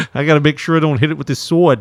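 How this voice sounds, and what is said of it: Put-on accent, not lispy. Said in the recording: “I don't know what accent I just gave him there ... it wasn't lispy, that's for sure.”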